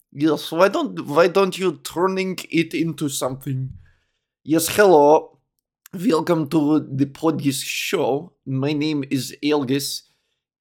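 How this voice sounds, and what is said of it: Put-on Russian accent. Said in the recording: “Now I'm talking like a Russian.”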